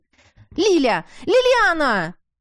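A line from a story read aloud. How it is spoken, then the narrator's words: Desperate shout. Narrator (Russian): выкрикнула отчаянно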